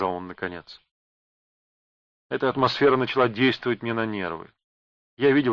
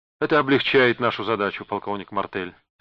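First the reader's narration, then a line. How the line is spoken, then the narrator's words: Plain. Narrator (Russian): сказал Бенкулин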